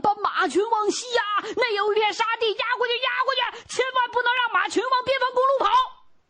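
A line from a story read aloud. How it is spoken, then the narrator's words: Shouting while chasing. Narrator (Chinese): 巴图是边追边喊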